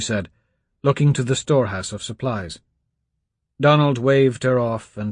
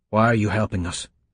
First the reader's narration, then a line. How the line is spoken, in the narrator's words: asked, his voice hoarse